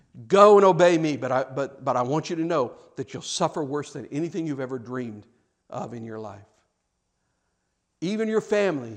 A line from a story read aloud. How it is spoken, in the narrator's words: he said